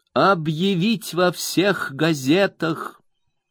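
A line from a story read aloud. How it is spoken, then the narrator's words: Plain. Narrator (Russian): ответила миссис Микавер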